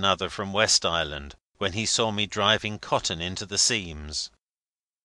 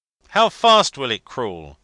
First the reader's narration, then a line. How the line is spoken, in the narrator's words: cried my old captain friend